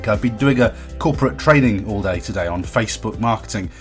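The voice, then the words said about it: Strained, worn-out voice. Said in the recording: “My voice is a bit, it's about to go, I think... I'm not sure if my voice is going to hold out”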